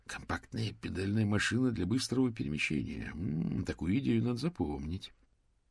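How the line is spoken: Whispering inner voice. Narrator (Russian): внутренний чертенок мокрица фон Липвига нашептал ему

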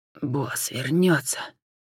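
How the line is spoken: Hoarse exhale. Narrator (Russian): хрипло выдохнул Дэниел

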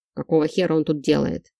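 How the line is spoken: Growled. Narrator (Russian): Прорычал

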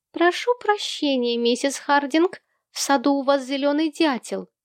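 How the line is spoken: Sing-song doll-like voice. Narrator (Russian): пропела Эви кукольным голоском

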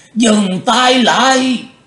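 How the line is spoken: Sudden scream. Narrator (Vietnamese): Lão quái bỗng hét lên

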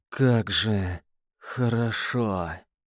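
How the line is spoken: Hissed. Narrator (Russian): прошипел

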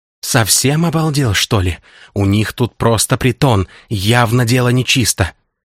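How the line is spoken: Angry hiss. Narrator (Russian): Зашипела

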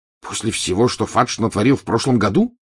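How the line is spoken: Angry question. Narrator (Russian): сердито спросил Гарри

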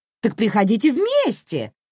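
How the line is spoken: Joyful exclamation. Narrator (Russian): радостно воскликнула Хелен

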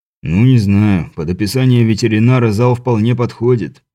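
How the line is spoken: Consoling, groaning. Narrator (Russian): утешил меня Крепыш и простонал

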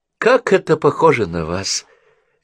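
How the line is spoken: Sighing. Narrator (Russian): Эдвард вздохнул Мидж

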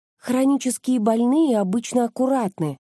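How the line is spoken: Soft interruption. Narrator (Russian): мягко перебила шефа Алла

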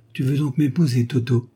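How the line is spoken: Actress exclaiming. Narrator (French): s'écria l'actrice

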